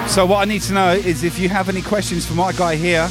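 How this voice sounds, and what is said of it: Australian-sounding accent. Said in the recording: “That, uh, that sounded really Australian.”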